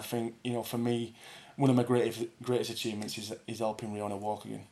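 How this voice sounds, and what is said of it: Dewsbury accent with hints of American. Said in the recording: “still got the Dewsbury accent ... You've gone a bit movie. I can hear some American coming through there”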